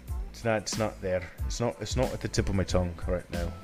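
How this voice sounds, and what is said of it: Put-on English accent. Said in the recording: “You keep doing the English accent”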